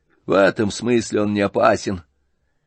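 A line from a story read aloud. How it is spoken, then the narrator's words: With a spiteful laugh. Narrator (Russian): сказал Ганя, злобно засмеявшись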